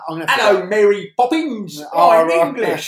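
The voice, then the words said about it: Overdone Dick Van Dyke English accent. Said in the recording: “Dick Van Dyke's accent... That is the worst accent in the history of cinema... He overcooks it.”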